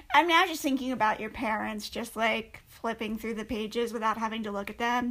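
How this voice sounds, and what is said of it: Usual voice. Nothing is said of it.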